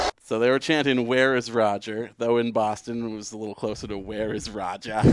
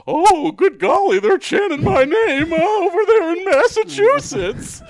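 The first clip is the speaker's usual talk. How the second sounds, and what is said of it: Imitates another person's voice. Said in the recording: “There's the Goodell impression.”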